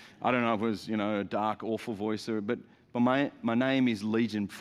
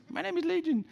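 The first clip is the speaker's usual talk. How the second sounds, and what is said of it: Small squeaky character voice. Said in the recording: “the little squeaky voice.”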